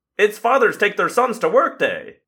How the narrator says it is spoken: I said brightly

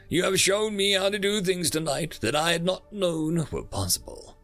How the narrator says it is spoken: I chuckle

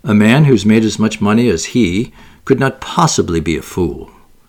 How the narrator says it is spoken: said Olga

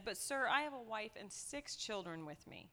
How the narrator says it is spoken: In a pitiful voice, the second man said

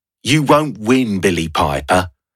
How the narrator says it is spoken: Noel spat

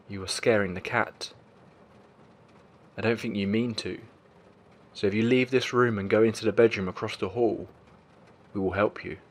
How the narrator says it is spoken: My partner spoke very calmly to the shadow, saying

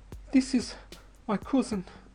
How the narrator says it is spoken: gasped

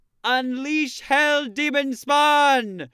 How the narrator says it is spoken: Pietro yells out to the kids

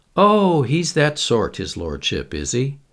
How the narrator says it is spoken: He chuckled

